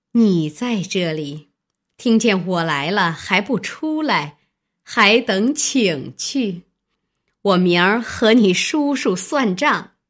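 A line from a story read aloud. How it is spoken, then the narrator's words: Sinister laugh. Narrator (Chinese): 南安太妃阴笑道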